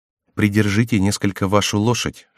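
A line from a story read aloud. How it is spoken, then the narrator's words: Whispered. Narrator (Russian): шепнул Реми Диане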